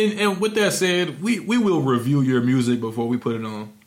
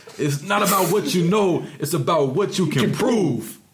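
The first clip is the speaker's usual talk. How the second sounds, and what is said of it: Imitates another person's voice. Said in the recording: “In my Denzel voice.”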